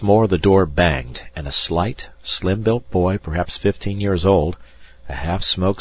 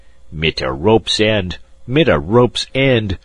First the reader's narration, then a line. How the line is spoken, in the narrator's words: growled the German